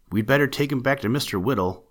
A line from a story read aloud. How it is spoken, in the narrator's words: Steve said